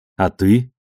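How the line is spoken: Plain. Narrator (Russian): ответил вопросом Холден

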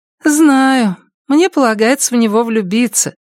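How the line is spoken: Sighing. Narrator (Russian): вздохнула Мия

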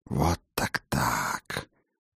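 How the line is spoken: Whisper. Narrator (Russian): прошептал вампир

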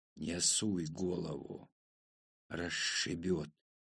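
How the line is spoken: Hissed. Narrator (Russian): прошипел я

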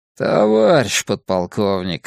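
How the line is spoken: Displeased grumble. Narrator (Russian): недовольно проворчал капитан 3-го ранга

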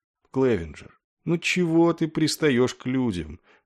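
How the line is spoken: Weary, raised over din. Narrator (Russian): устало спросил его Денбор, перекрыв на мгновение невнятный гомон офицерского клуба

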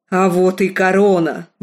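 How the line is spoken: Roaring. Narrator (Russian): взревел он

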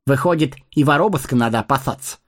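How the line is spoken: Wry snort. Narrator (Russian): хмыкнул Сэмми

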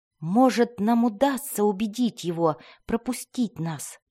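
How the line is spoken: Whisper. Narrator (Russian): прошептал Дзирт

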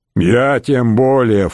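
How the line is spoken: Snorting. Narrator (Russian): фыркнул пивной пеной мачий Корсбок

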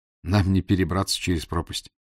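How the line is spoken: Sigh. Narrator (Russian): вздохнул я

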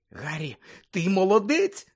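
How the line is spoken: Exclamation. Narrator (Ukrainian): скрикнула Герміона

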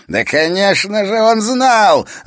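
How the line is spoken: Shout abruptly cut off. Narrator (Russian): закричал он, но неожиданно замолк, почувствовав на своем лице острый конец кинжала Эрока

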